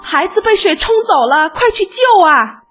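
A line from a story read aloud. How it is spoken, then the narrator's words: Panicked crowd cry. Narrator (Chinese): 大家慌成一团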